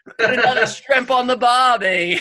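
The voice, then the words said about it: Attempted Australian accent. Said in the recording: “a line that everybody throws out when they hear Australian accent... my attempts at that accent”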